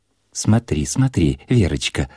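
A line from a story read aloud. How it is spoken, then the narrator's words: Whispered. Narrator (Russian): зашептала толстая мать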